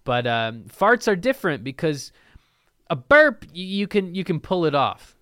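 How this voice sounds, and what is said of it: Slightly stuffy, congested voice. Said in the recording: “my voice is a little stuffy”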